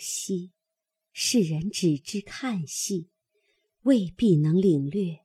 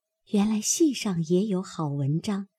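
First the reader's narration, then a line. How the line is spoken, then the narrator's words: Sighing inner thought. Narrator (Chinese): 不觉点头自叹，心下自思道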